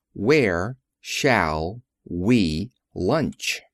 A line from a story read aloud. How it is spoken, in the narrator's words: repeated Emma McChesney slowly